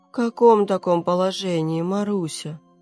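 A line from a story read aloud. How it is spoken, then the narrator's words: Tired question. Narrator (Russian): устало спросила Людочка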